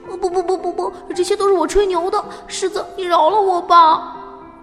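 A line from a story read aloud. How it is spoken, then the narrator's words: Crying. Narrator (Chinese): 小花狗哭着说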